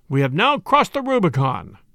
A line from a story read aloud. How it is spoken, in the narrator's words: he cried as he reached the far shore